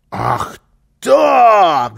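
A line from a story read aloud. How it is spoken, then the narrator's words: Shout. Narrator (Russian): закричал Карлсон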